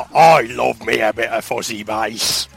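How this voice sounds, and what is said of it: Imitates another person's voice. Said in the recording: “That was my best Greg Wallace impersonation. ... That was all right, actually, yeah. ... Wasn't too bad.”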